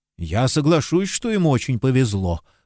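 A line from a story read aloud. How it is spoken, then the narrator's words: Grumble. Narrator (Russian): проворчал Таррент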